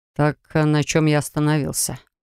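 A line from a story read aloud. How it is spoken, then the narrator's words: Sighing. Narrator (Russian): вздохнул он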